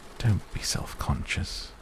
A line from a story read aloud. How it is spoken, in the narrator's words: he whispered in my ear